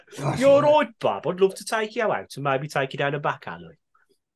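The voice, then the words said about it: Brummie accent. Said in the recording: “The Brummie accent, rather, is sexy”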